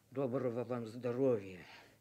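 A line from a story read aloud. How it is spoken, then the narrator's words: Mutter, father. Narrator (Russian): отец пробурчал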